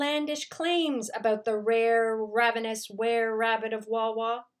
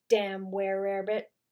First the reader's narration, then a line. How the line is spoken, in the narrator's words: said Polcher